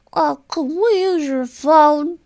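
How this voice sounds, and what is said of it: Little kid voice. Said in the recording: “my little kid voice”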